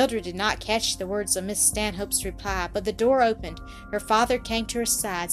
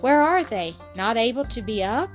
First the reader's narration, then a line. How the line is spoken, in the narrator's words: His tone was anxious and concerned